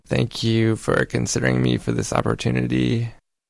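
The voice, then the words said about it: Creaky vocal fry voice. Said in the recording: “that same sentence with vocal fry ... There's kind of that creak or growl to the speaker's voice”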